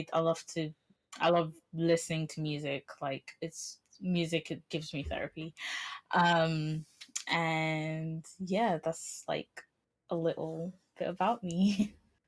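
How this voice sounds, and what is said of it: English accent. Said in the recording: “I get mesmerized by listening to English accents.”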